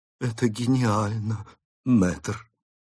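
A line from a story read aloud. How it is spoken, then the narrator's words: Whisper. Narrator (Russian): прошептала она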